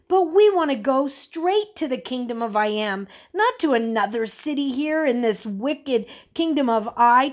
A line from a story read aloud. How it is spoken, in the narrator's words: Thomas exclaimed